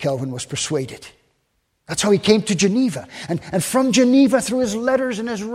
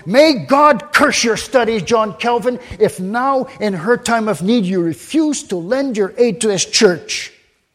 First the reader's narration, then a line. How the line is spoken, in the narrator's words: Farel was so eager and insistent that he called out